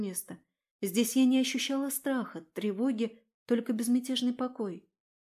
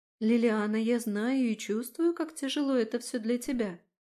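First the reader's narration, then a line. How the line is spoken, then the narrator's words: Calm, steady tone. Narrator (Russian): продолжила она все тем же спокойным тоном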